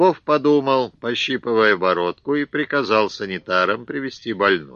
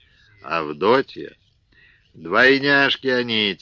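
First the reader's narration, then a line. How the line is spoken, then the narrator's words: Heavy sigh. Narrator (Russian): тяжко вздохнул Елизар Елизарыч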